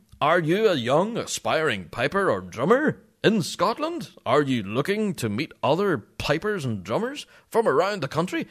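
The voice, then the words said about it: Put-on salesy radio announcer voice. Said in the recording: “Do you like my radio voice, it's weird, isn't it?... Sound like a used car salesman.”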